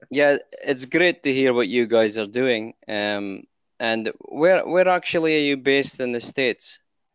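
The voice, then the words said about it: European accent. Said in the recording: “he has a European accent ... You hear my funny accent?”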